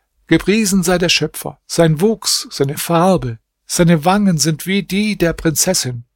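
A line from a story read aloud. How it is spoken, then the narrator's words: Calling out. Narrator (German): rief er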